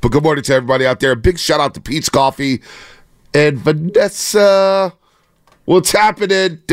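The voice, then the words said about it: Strained, nearly lost voice. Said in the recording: “I'm trying to save my voice ... it feels like my voice is gonna go out at any given moment. I've been hanging out by a thread over these last three weeks.”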